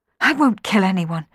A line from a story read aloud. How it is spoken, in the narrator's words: she gasped